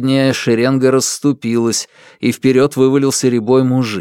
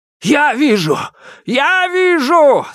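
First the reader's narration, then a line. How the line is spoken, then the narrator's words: Yelled. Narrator (Russian): завопил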